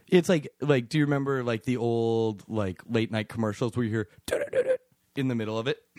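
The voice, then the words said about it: Voice cracking mid-sentence. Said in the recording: “Let me do that again without my voice cracking.”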